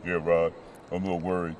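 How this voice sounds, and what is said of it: Put-on deep voice. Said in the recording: “tell me in your deep voice.”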